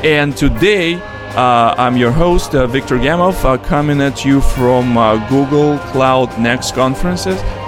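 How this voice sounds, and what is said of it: Heavy Russian accent. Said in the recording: “with heavy Russian accent.”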